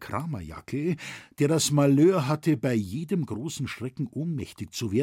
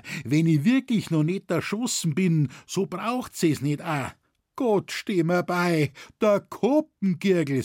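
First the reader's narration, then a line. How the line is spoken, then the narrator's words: Calling out. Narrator (German): rief er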